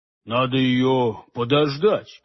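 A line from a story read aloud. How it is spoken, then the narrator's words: Grumbled. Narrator (Russian): пробурчал Хуги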